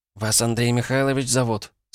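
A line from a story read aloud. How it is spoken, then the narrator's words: Timid smiling question. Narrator (Russian): спросила она, робко улыбаясь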